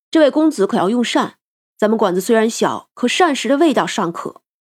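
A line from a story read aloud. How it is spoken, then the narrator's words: Cheerful, laughing greeting. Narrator (Chinese): 他笑呵呵的招呼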